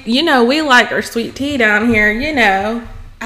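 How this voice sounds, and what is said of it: Attempted southern accent. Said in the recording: “I don't sound like I have a southern accent. I don't know accent. What kind of accent that is ... I don't know if that sounds southern.”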